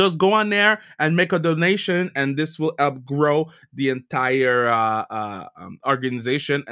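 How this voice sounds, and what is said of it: Usual voice. Nothing is said of it.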